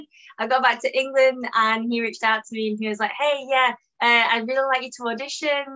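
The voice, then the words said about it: British accent. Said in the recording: “I love your accent, by the way. I, love the British accent.”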